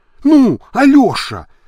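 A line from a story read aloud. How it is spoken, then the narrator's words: Exclaimed. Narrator (Russian): воскликнула Танюша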